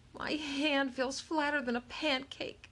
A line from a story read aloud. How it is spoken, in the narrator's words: she moaned